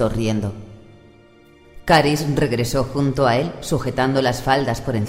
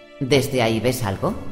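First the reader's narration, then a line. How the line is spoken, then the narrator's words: Chuckling. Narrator (Spanish): Mercín rió entre dientes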